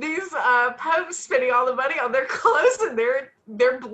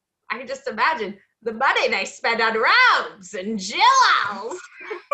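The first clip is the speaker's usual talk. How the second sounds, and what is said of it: Imitates another person's voice. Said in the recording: “That's a really good Ruth ... great Ruth Gordon impression”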